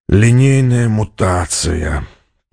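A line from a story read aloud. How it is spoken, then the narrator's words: Groaning. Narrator (Russian): простонал командор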